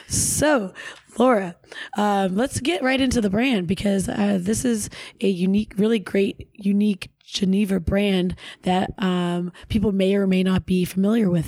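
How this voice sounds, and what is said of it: Hoarse voice. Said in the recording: “sound any way that is not like a hoarse voice right now ... that is your New Orleans voice”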